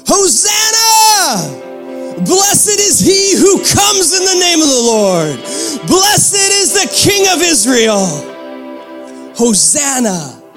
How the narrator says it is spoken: shouting

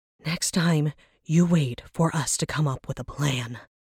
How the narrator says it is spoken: she wheezed, red-faced and tired

